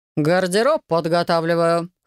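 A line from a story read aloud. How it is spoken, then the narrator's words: Snorting. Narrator (Russian): хмыкнул он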